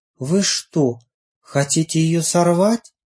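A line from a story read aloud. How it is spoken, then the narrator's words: Whispering again. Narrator (Russian): И снова зашептались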